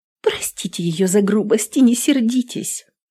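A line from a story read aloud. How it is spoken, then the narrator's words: Frightened exclamation. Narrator (Russian): испуганно воскликнула Кассия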